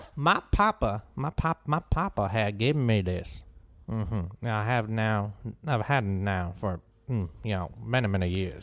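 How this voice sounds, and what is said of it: Put-on Southern American man accent. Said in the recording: “Can I do my accent for that? ... a Southern man ... Hey, Southern man. ... Southern”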